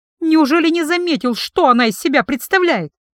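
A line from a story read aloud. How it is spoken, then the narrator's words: Sharp, defiant blurt. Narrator (Russian): Резко выпалила, не желая оправдываться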